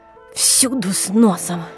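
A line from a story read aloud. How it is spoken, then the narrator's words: Angry. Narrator (Russian): сердито проговорила Нина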